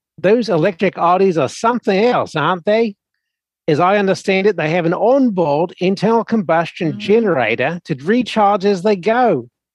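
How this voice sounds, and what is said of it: New Zealand accent. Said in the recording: “marvel at this accent? ... a Kiwi in Oz with a speech impediment accent ... I thought it was German or something.”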